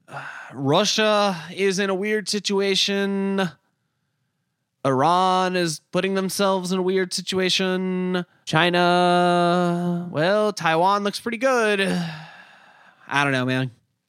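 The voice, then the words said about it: Put-on accent. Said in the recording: “What is this accent you're doing?”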